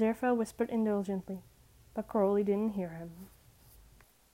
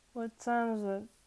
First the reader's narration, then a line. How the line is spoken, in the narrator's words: Crowley slurred, spitting feathers from his mouth